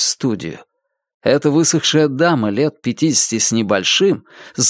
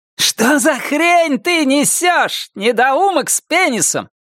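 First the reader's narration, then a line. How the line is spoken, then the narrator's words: Shout. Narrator (Russian): крикнула она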